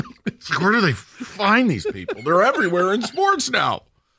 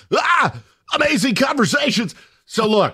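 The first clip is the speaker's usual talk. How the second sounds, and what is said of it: Mock sports announcer voice. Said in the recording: “do it in the voice ... announcer voice.”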